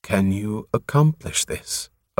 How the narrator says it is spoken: Osandria asked quietly

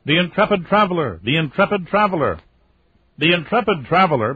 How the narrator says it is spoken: Babs is shouting

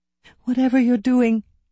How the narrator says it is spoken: I begged

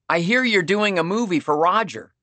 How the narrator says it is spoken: he said

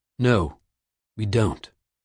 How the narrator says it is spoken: the alchemist said firmly

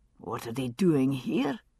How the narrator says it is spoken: he murmured

